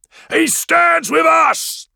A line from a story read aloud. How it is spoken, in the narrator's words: His men roar